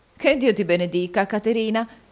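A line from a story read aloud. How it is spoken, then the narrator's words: Lively exclamation. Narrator (Italian): esclamò la signora Nickleby con la sua solita vivacità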